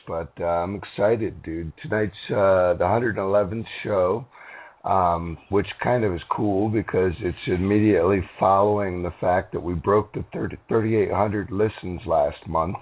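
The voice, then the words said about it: Hoarse voice. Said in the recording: “I'm a little bit fucking hoarse”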